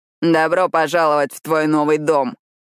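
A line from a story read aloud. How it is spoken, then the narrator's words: Mocking announcement. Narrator (Russian): насмешливо объявляет Рио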